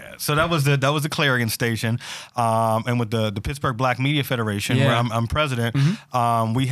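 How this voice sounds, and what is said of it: Usual voice. Nothing is said of it.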